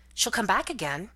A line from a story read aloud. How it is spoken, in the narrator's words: said eagerly